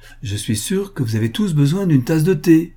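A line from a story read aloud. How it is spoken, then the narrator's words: Cheerful. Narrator (French): ajouta-t-elle gaiement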